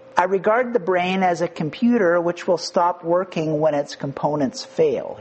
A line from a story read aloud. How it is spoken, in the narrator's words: he said